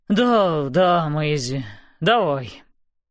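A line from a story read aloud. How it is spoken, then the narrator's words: Old man, deep sigh. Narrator (Russian): Старый кок глубоко вздохнул и сказал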